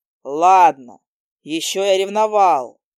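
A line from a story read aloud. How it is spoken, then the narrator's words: Bark. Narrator (Russian): рявкнул он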